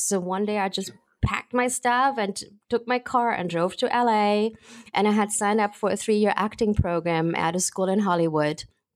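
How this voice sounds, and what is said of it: German accent. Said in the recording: “I have a German accent”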